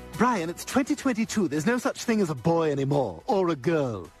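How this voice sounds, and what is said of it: Baby character with British accent. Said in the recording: “the baby has a British accent.”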